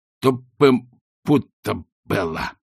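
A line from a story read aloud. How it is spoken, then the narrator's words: Mumbled through injured jaw. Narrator (Russian): пробормотал Ринсвинд, держась за поврежденную челюсть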